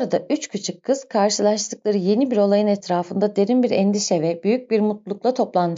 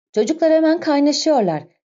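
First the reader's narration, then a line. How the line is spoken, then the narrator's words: Shouting. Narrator (Turkish): diye bağırdı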